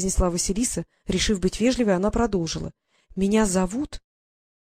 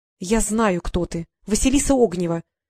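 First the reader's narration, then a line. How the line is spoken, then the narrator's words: Little fairy's angry interruption. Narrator (Russian): сердито перебила маленькая фея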